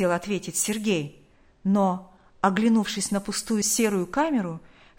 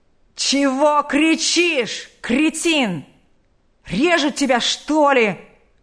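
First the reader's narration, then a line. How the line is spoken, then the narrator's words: Frenzied yelling. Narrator (Russian): неистовым голосом заорал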